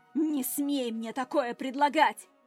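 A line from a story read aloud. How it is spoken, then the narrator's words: Growl. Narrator (Russian): Рыкнула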